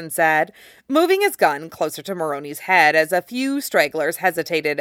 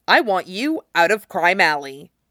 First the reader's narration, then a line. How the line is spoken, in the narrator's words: Jason said coldly